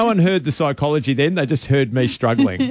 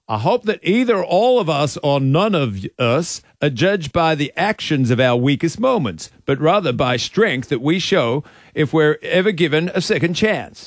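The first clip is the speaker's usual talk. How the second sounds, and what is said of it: Imitates another person's accent. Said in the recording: “Can you say it with his accent? ... do the accent”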